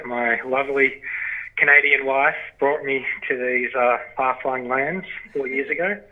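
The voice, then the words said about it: Australian accent. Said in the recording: “As you can tell from my accent, I'm from Australia.”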